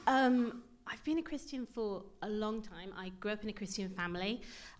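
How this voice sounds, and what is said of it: Slightly posh English accent. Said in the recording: “you don't sound like you're from Bury. Because you've got a bit of a posh accent”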